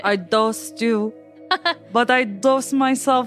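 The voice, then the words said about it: Put-on vampire-style accent. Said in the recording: “Nicole Kidman's accent? Her vampire accent.”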